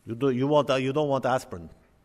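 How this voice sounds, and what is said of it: Put-on Indian accent, sounds Russian. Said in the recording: “That's my Indian accent. It probably sounds Russian.”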